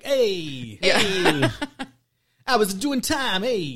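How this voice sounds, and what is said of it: Exaggerated Italian-American greaser accent. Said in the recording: “Italian greaser stereotype ... they've all got the accent ... it's really bad”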